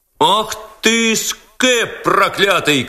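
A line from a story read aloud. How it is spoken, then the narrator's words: Crowd shouting. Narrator (Russian): кричала толпа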